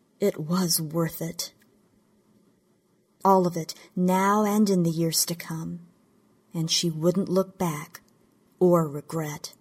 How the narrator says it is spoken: she said softly into the silence, knowing it to be true

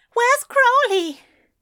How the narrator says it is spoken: asked desperately as a wave of dread settled low in his chest

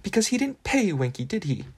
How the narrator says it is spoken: said Hermione, her voice rising passionately

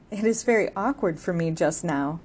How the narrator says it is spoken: he said, laughing

